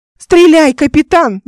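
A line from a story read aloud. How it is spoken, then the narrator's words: Screamed. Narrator (Russian): закричала она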